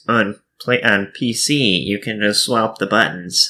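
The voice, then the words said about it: Nerdy put-on voice. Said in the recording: “do my nerd voice,”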